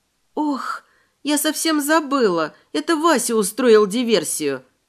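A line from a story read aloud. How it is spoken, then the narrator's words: Moaning. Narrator (Russian): простонала я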